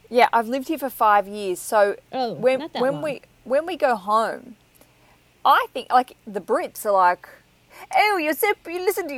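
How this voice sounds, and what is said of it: Australian accent with English influence. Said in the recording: “I like your accent because it's not like the typical Australian accent ... you have some English influence”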